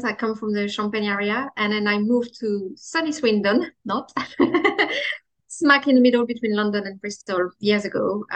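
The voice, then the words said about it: French accent in English. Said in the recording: “I'm French. I'm not sure if you can hear from the accent.”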